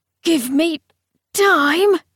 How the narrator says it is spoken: said Camilla through gritted teeth

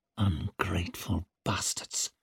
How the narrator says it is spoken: she hissed through her fixed smile

